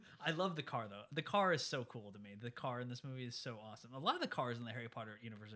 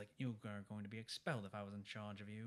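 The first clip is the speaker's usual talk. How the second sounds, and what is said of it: Poor impression of a character's voice. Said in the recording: “That was not a good impersonation.”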